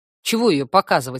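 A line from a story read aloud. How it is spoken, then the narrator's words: Snorting. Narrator (Russian): хмыкнула я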